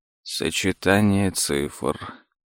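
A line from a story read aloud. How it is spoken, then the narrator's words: Muttered. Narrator (Russian): пробормотал за сыном Том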